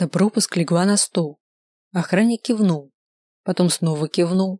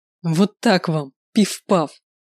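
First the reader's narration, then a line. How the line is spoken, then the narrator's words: Open loud laughter. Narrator (Russian): захохотал, уже не таясь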